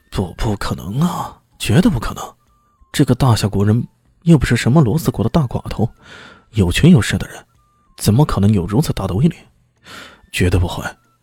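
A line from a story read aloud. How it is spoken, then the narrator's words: Inner muttering. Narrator (Chinese): 心里嘀咕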